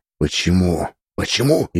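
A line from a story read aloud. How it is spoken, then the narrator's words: Indignant anxious whisper. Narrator (Russian): Ее шепот был полон возмущения и той тревоги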